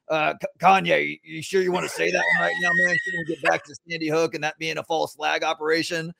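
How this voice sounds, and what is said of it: Imitates another person's voice. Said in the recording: “Your Alex Jones impression is spot on ... That's pretty good”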